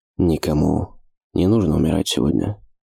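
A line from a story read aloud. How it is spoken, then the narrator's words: Quiet, like an incantation. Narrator (Russian): тихо произнес Ош, словно читая какое-то магическое заклинание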